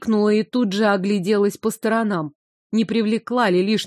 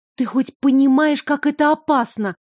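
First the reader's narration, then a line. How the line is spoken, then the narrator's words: Angry whisper. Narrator (Russian): продолжила я гневным шепотом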